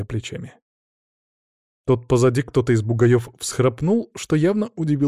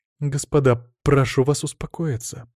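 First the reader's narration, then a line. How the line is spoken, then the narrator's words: Conciliatory tone. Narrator (Russian): примирительным тоном произнесла Марина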